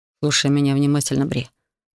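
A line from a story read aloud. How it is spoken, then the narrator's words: Quick whisper. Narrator (Russian): продолжал быстро шептать Хантер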